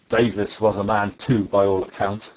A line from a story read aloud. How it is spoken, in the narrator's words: said Silver